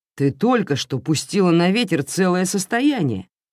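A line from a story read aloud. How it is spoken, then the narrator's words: Exclaimed. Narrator (Russian): воскликнул граф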